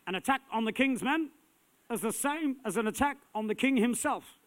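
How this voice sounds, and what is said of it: Poorly done put-on accent. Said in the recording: “That was the lousiest accent I've ever done in my life.”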